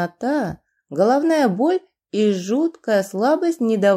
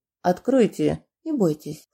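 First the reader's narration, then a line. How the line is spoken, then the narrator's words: Low voice. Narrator (Russian): вполголоса проговорил Кирилл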